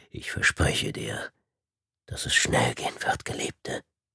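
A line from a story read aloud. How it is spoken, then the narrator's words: Whisper. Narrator (German): flüsterte er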